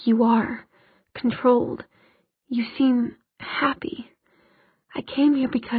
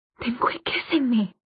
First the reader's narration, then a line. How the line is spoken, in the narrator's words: she gasped